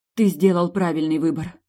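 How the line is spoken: Breathless exhale. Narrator (Russian): выдохнула я

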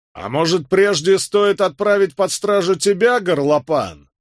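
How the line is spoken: Roaring. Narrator (Russian): взревел Роберт Кэт

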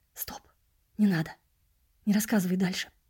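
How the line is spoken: Whisper. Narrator (Russian): прошептал я

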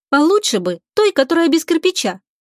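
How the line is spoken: Plain. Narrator (Russian): ответила Лика

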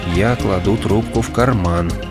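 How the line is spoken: Quiet. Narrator (Russian): тихо проговорил Уэйд

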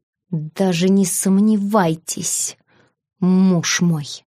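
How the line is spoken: Quiet furious hiss. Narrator (Russian): сменилось несколько эмоций от удивления до вернувшейся ярости, и бешеная кошка тихо прошипела

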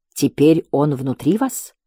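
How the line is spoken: Whisper. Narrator (Russian): прошептал он

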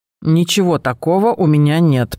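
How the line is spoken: Female grumble. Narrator (Russian): проворчала она

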